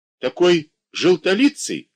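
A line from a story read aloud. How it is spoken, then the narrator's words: Shout. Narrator (Russian): крикнула тетя Груша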